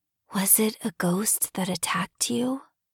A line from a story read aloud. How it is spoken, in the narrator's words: she had whispered